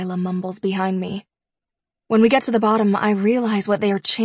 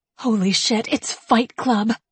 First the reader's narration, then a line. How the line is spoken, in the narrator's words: Delilah whispers excitedly